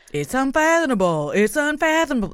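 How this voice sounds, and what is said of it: Dr. Phil impression. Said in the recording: “my Dr. Phil impression”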